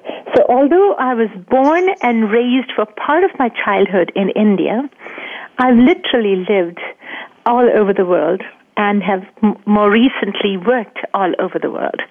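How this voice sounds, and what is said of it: Mixed Indian, Australian, English, Midwestern accent. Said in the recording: “the accent that you're hearing is part India, part Australia, part England, and definitely North Dakota ... we definitely hear the North Dakota part of it, for sure. That comes out clearly ... your accent to our ears is simply marvelous. It's soothing to the ear.”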